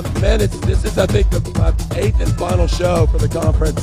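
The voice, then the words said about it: Hoarse, strained voice. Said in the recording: “I've pretty much lost my voice from days of screaming and excessive drinking and very little sleep”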